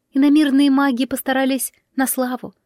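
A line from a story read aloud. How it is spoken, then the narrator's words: Sighing. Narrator (Russian): вздохнула пернатая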